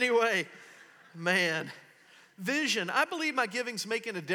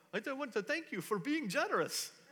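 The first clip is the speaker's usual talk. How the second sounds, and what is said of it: Deliberately bad Indian accent. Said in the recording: “Some little Indian guy's going to come up ... Terrible Indian accent”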